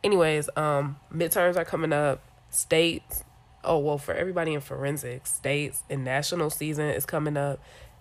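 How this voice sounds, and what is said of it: Congested voice from a cold. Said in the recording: “I'm sick. I have a cold. So if my voice sounds how I think it sounds”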